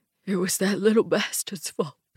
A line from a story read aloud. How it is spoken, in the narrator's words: Frank says, his voice hardly more than a sob